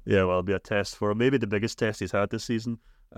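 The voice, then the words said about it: Thick Scottish accent. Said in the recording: “my thick Scottish accent”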